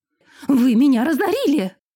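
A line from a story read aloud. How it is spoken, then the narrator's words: Piercing falsetto cry. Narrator (Russian): Срываясь на фальцет, да так, что резануло слух, вскрикнул он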